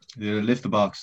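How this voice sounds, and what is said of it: Put-on French accent, sounds German. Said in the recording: “do lift that box there in a French accent ... Small bit German, I'd say ... I almost thought you were Indian.”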